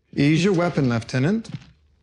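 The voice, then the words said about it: Funny put-on accent. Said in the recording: “does a voice. He does a funny accent.”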